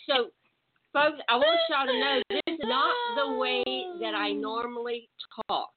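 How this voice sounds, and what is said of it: Texas accent. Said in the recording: “8 hours ago, I did not have this accent ... I'm a Texas girl. I'm not even talking like myself right now ... I've done everything I can to get rid of this accent, and I can't get rid of it”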